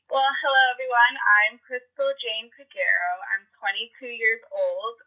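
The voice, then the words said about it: Voice sounds a bit sick. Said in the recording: “I am feeling a little bit under the weather, so if anyone's listening, please just excuse my voice.”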